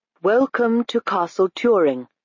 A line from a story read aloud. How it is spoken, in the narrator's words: said the lord in a metallic voice